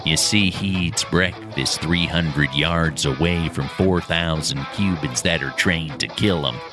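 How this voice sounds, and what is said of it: Jack Nicholson impression. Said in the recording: “that an impression ... that was Jack ... winged freak terrorizes Gotham”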